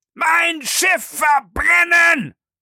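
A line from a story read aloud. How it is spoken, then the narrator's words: Choked, barely articulate shout. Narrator (German): schrie der Kapitän Speedy, der kaum noch Silben vorbringen konnte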